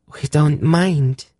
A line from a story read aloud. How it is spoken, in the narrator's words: the girl replied earnestly